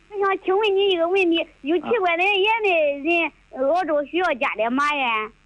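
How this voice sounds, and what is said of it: Southwestern Shandong regional accent. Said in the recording (Chinese): “我听的像那个鲁西南的口音”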